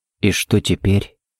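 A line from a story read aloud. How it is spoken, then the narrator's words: Barely audible question. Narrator (Russian): едва слышно спросил Харри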